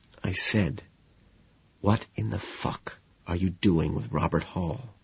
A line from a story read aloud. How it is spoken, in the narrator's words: I whisper